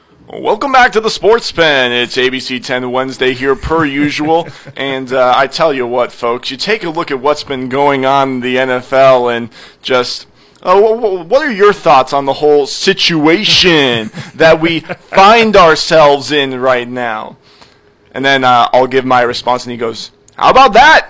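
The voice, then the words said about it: Impression of co-host's broadcaster voice. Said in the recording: “good impression that I thought was pretty spot on ... your impression of me ... That was pretty darn good. That was pretty spot on.”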